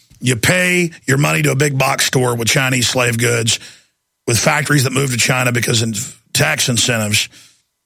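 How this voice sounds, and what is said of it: Raspy, strained, nearly lost voice. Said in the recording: “my voice is gone today, but it's one thing when my voice is raspy, but it's another thing entirely when it's hard to talk ... It's just laborious to talk.”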